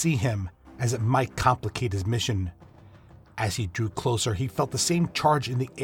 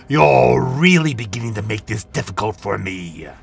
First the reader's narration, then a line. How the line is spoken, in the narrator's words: he growled